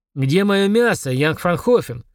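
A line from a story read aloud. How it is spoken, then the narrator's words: Impatient bark. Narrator (Russian): рявкнул он, устав ждать, пока рогатый жертрест наболтается со смазливой гахеримкой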